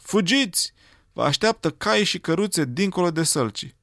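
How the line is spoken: Shouted. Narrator (Romanian): au strigat la revoluționari

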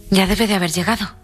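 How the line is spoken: Loud, exhausted. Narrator (Spanish): dijo Lily Briscoe en voz alta, sintiéndose exhausta de pronto

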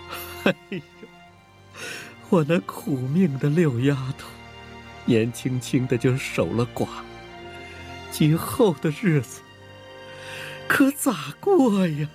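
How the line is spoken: Wailing, crying. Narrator (Chinese): 七姑娘也哇的哭出声来

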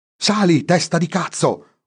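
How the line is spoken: Yelling. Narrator (Italian): urlò Franco a René

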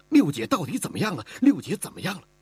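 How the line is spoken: Tearful voice. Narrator (Chinese): 声音中带着哭腔

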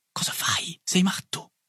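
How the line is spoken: Whispered. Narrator (Italian): mi sussurrò Boulanger

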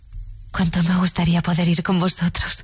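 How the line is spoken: Exclaimed. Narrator (Spanish): exclamó

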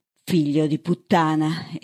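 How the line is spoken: Exclamation. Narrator (Italian): esclamò Bird

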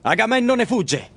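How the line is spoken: Shouted. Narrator (Italian): grida allora Ettore

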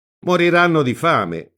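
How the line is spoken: Exclaimed. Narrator (Italian): esclama Ama

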